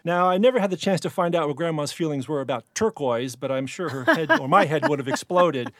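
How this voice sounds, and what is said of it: Regional accent, 'er' replacing 'oi'. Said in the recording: “that accent with the ER replacing the oil”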